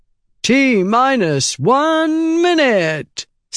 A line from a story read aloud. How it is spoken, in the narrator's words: intoned into a bullhorn